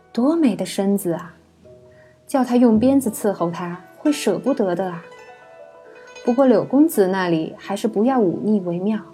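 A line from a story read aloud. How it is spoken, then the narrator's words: Admiring, tongue-clicking, resigned. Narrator (Chinese): 非常无奈地 她不禁啧啧赞叹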